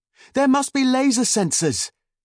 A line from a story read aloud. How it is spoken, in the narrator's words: Caleb yelled back